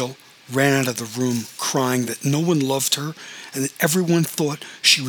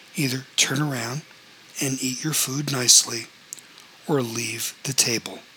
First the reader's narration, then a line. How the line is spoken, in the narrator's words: He said quietly